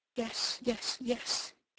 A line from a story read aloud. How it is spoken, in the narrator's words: murmured